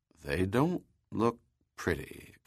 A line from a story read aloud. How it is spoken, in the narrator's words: Kaufman muttered, repelled by what he saw